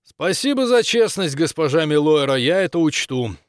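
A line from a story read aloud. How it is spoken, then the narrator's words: Loud statement. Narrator (Russian): громко сказал он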